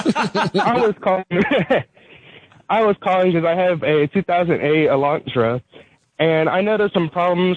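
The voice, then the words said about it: Out of breath, panting speech. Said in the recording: “sorry, I'm out of breath. I'm on my morning runner.”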